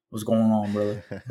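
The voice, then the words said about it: Imitates another person's voice. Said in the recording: “Good impression. Voice.”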